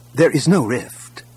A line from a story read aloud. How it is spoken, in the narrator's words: Kip said firmly